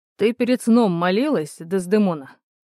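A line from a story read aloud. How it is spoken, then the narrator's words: Displeased quoting tone. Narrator (Russian): недовольным тоном процитировал Шекспира подполковник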